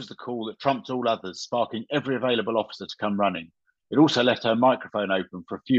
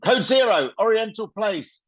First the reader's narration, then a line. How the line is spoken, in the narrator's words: Sarah stabbed the red button on her airwave radio and screamed